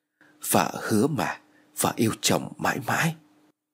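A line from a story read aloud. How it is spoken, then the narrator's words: Tender whisper. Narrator (Vietnamese): Cô thì thầm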